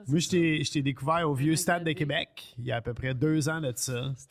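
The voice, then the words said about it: Acadian French accent from New Brunswick. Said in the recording (French): “Ça, c'est à cause de mon accent... C'est quoi ton accent?... De Le Goulet au Nouveau-Brunswick.”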